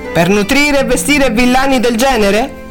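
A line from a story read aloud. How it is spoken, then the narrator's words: Laughing. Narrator (Italian): Cunningham rise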